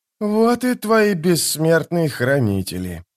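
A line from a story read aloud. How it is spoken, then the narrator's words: Mutter. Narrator (Russian): пробормотал Кальп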